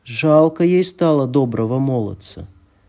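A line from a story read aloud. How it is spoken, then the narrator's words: Plain. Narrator (Russian): говорит она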